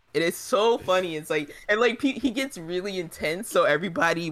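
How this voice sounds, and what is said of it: Usual voice. Nothing is said of it.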